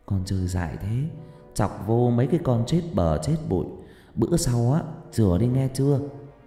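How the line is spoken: Older woman murmuring tenderly. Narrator (Vietnamese): Bác gái thủ thỉ

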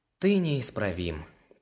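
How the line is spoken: Sighing. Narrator (Russian): Лар, вздохнул

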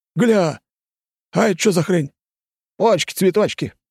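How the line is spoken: Exclaimed. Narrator (Russian): воскликнул прыщавый

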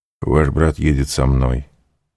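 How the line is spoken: Soft. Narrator (Russian): мягко сказал граф

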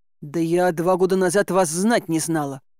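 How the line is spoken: Snorted. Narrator (Russian): фыркнула я

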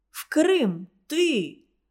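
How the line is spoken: Exclaiming. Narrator (Russian): воскликнул Индрек

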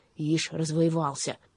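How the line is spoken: Displeased grumble. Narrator (Russian): недовольно буркнул

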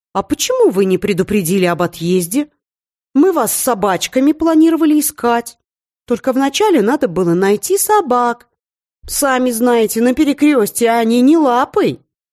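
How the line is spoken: Exclaiming while chewing. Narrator (Russian): доживав второй гигантский кусок мяса, воскликнула Мрагулка

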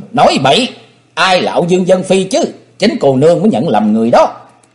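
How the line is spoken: Shouted loudly. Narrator (Vietnamese): Âu Dương Dân Phi quát lớn

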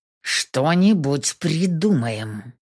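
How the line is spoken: Hissing through teeth. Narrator (Russian): Цыжу сквозь зубы

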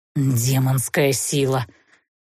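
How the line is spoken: Dismayed sigh. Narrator (Russian): выдохнул он огорченно

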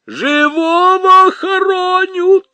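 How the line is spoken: Woman wailing. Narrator (Russian): завопила все та же женщина

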